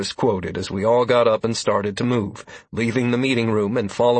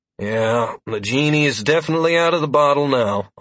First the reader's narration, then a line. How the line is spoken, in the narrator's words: I grumbled